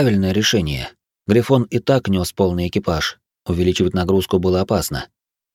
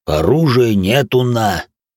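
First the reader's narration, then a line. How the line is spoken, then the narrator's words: Offended rumble. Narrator (Russian): обиженно прогудел грохот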